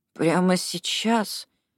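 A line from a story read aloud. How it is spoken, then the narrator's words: Mumbled. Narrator (Russian): пробормотал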